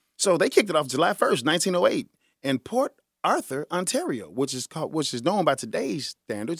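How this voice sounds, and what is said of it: Usual voice. Nothing is said of it.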